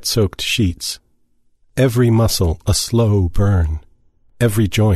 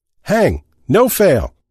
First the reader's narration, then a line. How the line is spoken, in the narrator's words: someone shouted